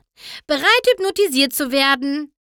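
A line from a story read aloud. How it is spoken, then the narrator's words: Calling. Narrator (German): rief Pinkie Pie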